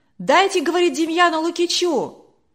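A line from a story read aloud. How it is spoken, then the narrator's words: Crowd shouting. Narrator (Russian): кричали из других рядов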